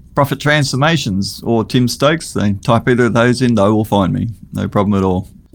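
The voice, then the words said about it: Australian accent. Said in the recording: “Australian accent's been the flavor of the ... Even fighting through the accent”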